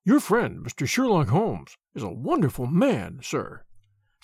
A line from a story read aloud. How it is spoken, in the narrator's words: said he in a husky and confidential voice